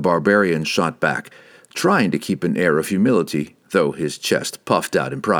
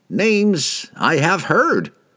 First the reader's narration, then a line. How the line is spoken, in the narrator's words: one of the farmers cried out in sudden recognition